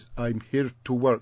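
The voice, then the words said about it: Strange-accented, blank factory worker voice. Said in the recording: “this sort of chap with a strange accent who just stares sort of into space”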